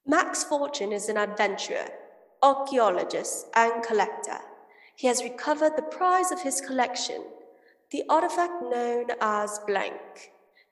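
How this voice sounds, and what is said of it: Attempted English accent. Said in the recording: “I'm going to attempt this English accent.”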